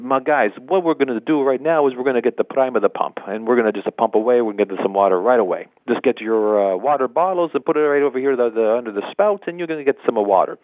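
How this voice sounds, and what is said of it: Imitates an Italian man's accent. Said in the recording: “that's my best impression of John, his Italian language there”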